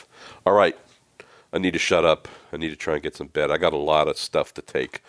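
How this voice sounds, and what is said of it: Rough, sick-sounding voice. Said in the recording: “my voice is trash”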